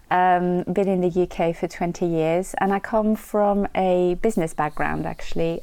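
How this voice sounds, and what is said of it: French accent. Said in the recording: “With the French accent, ideally... I am French, clearly.”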